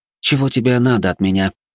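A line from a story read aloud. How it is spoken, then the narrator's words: Displeased young woman. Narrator (Russian): недовольным голосом произнесла девушка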